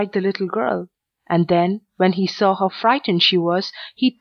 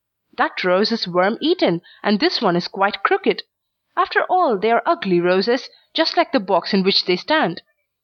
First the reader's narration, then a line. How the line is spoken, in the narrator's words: he cried suddenly